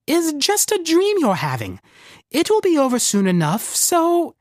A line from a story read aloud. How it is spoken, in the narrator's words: said with a squeak